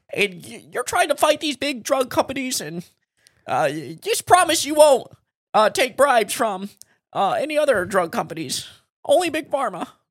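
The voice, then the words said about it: Imitates another person's voice. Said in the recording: “I'm doing my Elizabeth Warren impression.”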